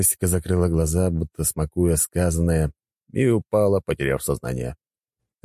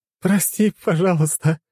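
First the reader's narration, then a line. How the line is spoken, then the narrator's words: Laughing goddess. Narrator (Russian): сквозь смех сказала богиня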